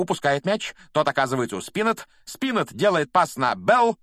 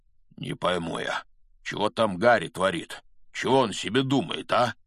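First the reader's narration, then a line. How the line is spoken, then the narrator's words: Muttering. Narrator (Russian): бормотал Хагрид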